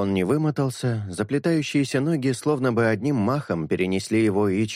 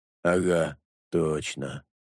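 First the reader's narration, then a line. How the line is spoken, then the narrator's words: Muttering. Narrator (Russian): пробормотал Чистик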